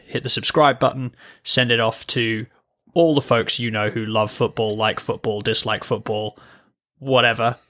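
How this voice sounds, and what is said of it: British accent. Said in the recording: “their favorite British accent”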